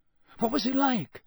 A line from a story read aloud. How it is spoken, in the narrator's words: said Harry eagerly